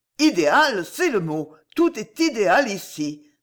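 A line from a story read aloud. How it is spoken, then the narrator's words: Sudden enthusiastic exclamation. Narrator (French): s'écria Robert dans un élan subit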